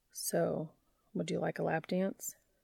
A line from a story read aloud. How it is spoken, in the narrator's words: murmuring